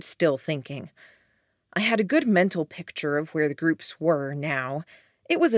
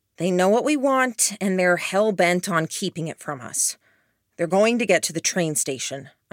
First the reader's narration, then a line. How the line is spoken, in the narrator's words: I said